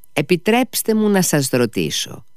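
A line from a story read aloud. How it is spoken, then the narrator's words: Polite, respectful, smiling. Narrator (Greek): άρχισε ο συνήγορος με το πιο ευγενικό και μάλιστα γεμάτο σεβασμό χαμογελό του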